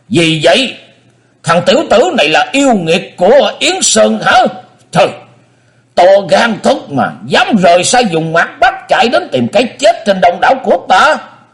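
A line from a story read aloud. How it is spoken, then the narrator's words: Roar. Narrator (Vietnamese): Dương Phong Lai gầm lên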